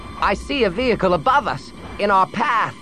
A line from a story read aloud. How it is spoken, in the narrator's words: Mrav called out to him